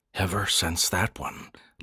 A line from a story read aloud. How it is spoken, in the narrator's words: Landon repeated softly